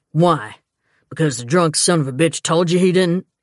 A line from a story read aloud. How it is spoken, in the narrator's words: Gibson snapped